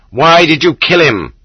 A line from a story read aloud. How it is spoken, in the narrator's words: shouted the prisoners